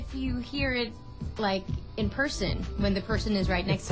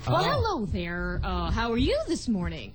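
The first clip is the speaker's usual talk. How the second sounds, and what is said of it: Exaggerated DJ-style radio voice. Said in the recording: “DJ-y delivery”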